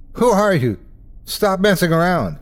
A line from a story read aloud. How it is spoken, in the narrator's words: We keep yelling to whatever's outside